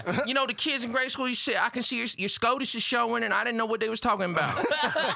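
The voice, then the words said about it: Put-on Atlanta accent. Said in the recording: “That's definitely me doing an ethnic Atlanta accent”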